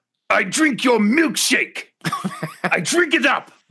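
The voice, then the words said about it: Imitates a movie character's voice. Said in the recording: “would you like to take a stab doing an impression of number one? ... I've been getting into character. ... You're going to have to go method then on this one. ... That's pretty good.”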